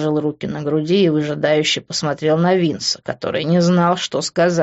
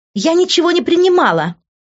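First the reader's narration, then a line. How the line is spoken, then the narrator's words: Shrill squeal. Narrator (Russian): взвизгнула она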